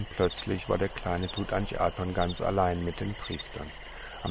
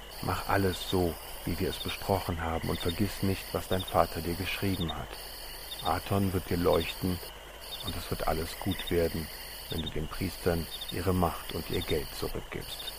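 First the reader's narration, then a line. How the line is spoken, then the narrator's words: Whispered. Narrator (German): flüsterte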